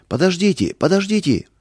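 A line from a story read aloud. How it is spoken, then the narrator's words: Shouting. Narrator (Russian): закричал он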